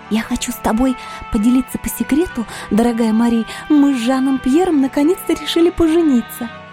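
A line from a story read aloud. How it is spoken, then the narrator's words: Whispered. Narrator (Russian): Шепотом сообщила стоящая рядом со мной девушка своей подруге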